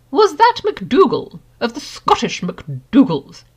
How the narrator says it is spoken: inquired one of the portraits in a high, carrying voice

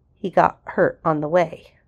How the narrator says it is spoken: Ronan asked quietly

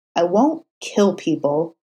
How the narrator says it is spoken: Matt said, his tone resolute

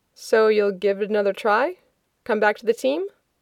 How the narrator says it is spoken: Rodney says

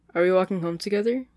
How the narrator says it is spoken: she asks

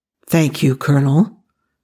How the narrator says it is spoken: Hammond said gravely

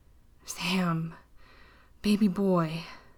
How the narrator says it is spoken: Dean choked out

